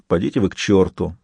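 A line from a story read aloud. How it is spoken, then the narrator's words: Grumbling. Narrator (Russian): проворчал Сварог традиционное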